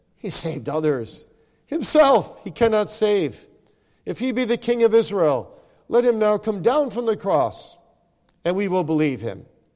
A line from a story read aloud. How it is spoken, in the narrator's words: the chief priests, mocking him with the scribes and elders, said